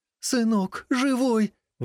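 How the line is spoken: Exclamation. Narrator (Russian): воскликнула она

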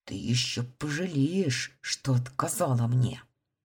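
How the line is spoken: Hissing, cook. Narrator (Russian): прошипел повар

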